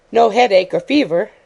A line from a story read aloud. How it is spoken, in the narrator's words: asked Miss Lake cheerfully